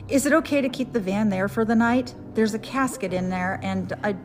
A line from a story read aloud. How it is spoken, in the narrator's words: I blurt out